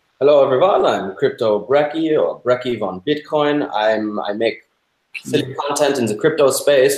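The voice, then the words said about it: German-Austrian tinged accent. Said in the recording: “Where's that accent from? You definitely sound... not fake foreign at all. ... You're doing a good job of reminding me of my grandmother, who was German.”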